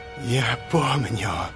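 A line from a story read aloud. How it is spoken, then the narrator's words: Rustling voice. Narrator (Russian): шелестящим голосом произнес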